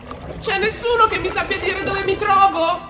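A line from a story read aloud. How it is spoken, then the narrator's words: Young dolphin attempting shout. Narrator (Italian): provò a gridare il giovane delfino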